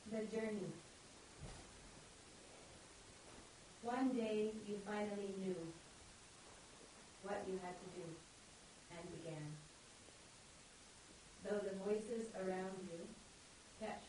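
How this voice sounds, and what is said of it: American accent, reading aloud. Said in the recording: “read with this nice American accent”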